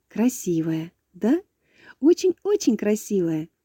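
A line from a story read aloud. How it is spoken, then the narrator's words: Laughing. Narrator (Russian): засмеялась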